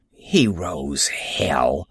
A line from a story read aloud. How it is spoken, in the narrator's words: muttered